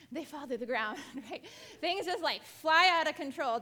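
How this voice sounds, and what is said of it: Out of breath, panting. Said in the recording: “Ooh, I'm out of breath.”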